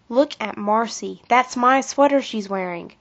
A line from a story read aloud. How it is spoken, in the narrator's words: whispered Kathy to her best friend